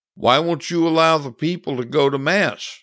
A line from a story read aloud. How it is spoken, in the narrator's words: asked Anthony